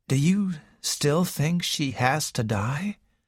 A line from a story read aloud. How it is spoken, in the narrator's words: asked Raymond quietly